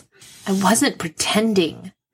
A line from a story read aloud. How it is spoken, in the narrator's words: Sydney says hotly